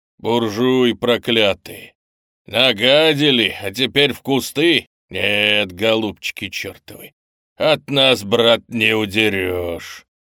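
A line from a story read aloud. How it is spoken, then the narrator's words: Hoarse thin angry hissing. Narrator (Russian): Другой сиплый и тонкий голос, принадлежавший худому парню с испитым землистым лицом и злыми глазами, шипел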